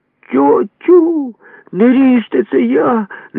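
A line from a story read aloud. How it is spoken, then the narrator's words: Cry in a strange voice. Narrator (Ukrainian): не своїм голосом скрикнув я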